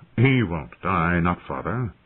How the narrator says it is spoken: he said calmly

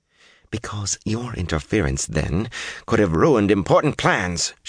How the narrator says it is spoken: said, driving each word home in a tight voice

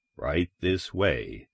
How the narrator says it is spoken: the commissioner said, smiling coldly

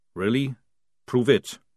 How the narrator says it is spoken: said Jackram calmly

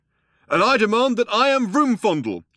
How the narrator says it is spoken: shouted the younger one

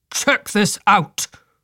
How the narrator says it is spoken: barked

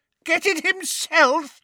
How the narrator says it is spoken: shrieked Bellatrix over a cackle of mad laughter

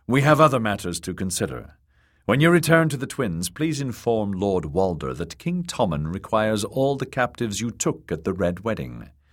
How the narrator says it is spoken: he said in a dry tone

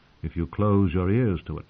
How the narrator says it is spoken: Sir Barristan said softly

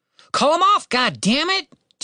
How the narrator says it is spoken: Tim shouted at his sister

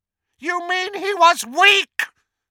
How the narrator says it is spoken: screamed Voldemort

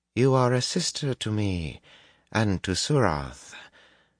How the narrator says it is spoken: Tuon said in a surprisingly gentle voice

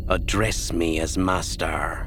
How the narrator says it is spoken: Ninyim said stiffly

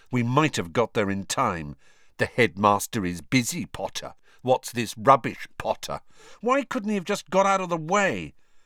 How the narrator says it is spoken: Harry said bitterly

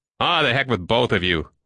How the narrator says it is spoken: Lackmore said in disgust, drawing his breath in sharply

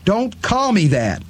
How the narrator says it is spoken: Eddie shouted

